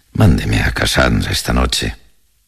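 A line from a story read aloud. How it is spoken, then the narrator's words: Consoling tone. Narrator (Spanish): dijo en un tono consolador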